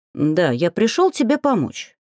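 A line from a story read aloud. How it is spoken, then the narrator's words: Cheerful. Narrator (Russian): весело кивнул дракон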